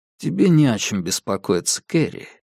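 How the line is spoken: Soft gentle. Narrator (Russian): мягко промолвил я

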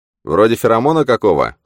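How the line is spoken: Snorting. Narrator (Russian): хмыкнул Манни

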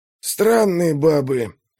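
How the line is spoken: Grumbling. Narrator (Russian): пробурчал Скорген

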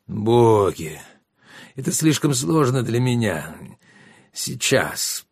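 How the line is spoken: Groaning. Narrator (Russian): простонал Родион

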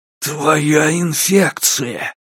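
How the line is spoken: Creaky voice. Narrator (Russian): проскрипел Кен

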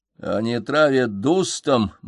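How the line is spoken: Gloomy. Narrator (Russian): мрачно спросил Феликс

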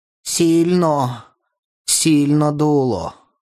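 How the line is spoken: Sighing, delirious. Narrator (Russian): Он вздохнул и сказал, как в бреду

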